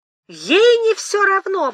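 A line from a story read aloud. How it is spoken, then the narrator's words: Exclaiming, near desperate tears. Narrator (Russian): воскликнул он, чуть ли не со слезами отчаяния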